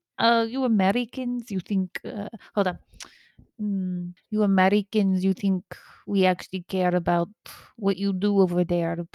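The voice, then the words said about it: Russian accent impression. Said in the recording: “You guys want to hear my Russian accent? ... My Vladimir Putin. ... that is my Vladimir Putin.”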